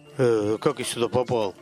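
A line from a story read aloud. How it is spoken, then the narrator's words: Plain. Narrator (Russian): спросил он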